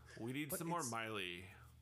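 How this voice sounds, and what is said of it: Drunk annoyed woman voice. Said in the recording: “my pissed off drunk lady at a wedding impersonation”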